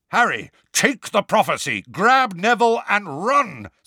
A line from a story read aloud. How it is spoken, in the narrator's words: Sirius yelled